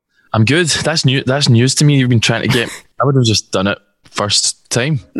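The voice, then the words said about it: Scottish accent. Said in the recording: “It must be my accent. It must be people are like, what was that guy saying? ... that seems to be the universal reaction to the Scottish accent.”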